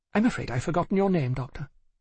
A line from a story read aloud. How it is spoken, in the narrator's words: she said, in a slightly crisper tone